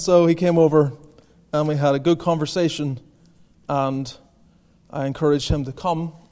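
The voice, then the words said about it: A distinct accent. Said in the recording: “this cousin of his can hear my accent ... he can hear this accent, and he thinks, that has to be him.”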